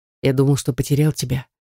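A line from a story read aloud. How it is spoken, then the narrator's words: Husband speaking quietly. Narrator (Russian): тихо произнес муж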